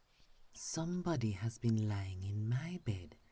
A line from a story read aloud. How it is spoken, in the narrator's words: said the middle bear in her middle voice